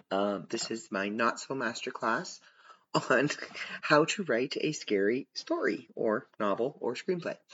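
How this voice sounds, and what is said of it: Slightly rough, worn voice. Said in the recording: “My voice is getting a little rough”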